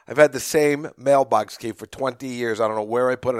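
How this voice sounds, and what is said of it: Slightly hoarse voice. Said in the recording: “You can hear my voice a little hoarse. ... I got the tickle in my throat.”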